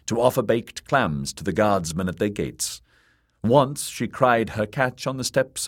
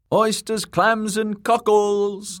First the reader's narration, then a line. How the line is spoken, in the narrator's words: the girl shouted